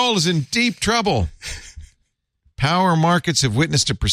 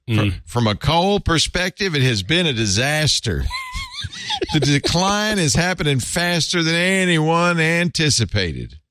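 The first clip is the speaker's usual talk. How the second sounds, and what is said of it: Put-on West Virginia accent. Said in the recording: “That's my West Virginia accent. ... That's so good. ... It's not good.”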